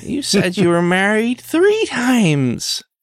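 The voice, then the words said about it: Tanya McQuad impression. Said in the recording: “your Tanya McQuad impersonation... Oh, it's getting pretty good.”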